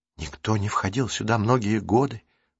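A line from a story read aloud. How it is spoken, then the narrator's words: Whisper. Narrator (Russian): прошептала Марук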